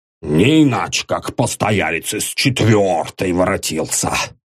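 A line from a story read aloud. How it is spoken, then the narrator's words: Annoyed grumbling caretaker. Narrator (Russian): Досадливо пробурчал дворник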